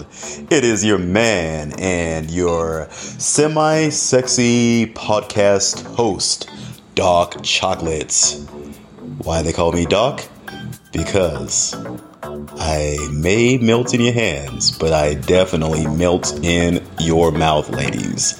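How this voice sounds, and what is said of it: Put-on sexy deep voice. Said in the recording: “my try at having a sexy deep voice”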